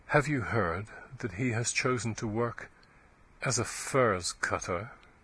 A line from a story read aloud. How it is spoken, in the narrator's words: she said, in a low, mournful voice